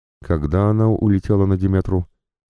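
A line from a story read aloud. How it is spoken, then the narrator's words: Surprisingly calm question. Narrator (Russian): спросил я и сам удивился тому, насколько спокойно прозвучал голос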